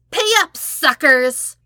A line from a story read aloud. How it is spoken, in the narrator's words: Toph was demanding to someone, speaking loudly over Zuko's shoulder